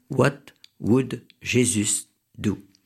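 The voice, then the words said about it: French-accented English. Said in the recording (French): “excusez-moi d'abord de l'accent ... Mille excuses pour cet accent.”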